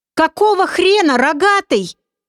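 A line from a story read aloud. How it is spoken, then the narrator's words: Yelling at full strength. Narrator (Russian): что было мочи, заорал Олег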